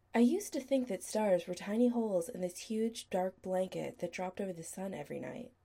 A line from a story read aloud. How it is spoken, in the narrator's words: Chris said quietly